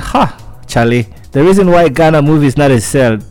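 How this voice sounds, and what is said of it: Imperfect put-on Ghanaian accent. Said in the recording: “my Ghanaian accent isn't perfect”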